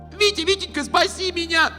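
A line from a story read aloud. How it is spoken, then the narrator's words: Scream. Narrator (Russian): закричала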